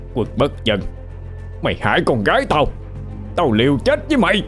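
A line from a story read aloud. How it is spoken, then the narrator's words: Loud shout. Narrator (Vietnamese): một bóng người hét lớn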